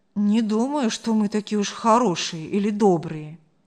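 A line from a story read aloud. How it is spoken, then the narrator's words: Sad, tender voice. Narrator (Russian): вдруг голос Марка стал грустно-ласковым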